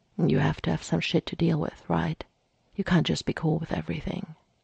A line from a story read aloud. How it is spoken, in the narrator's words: Mikey muttered